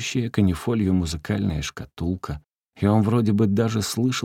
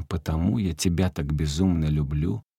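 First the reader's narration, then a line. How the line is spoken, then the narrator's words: Barely audible background. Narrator (Russian): едва слышно звучало фоном к словам, только что произнесенным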